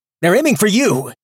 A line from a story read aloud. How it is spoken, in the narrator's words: he yelled